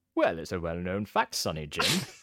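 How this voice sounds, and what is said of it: Put-on English accent. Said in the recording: “channel an English accent ... how an English accent sounds”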